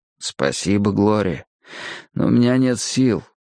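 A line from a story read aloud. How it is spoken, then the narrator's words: Weary reply. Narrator (Russian): устало ответил я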